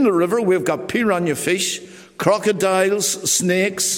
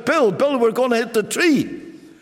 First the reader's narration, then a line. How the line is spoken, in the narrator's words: I shouted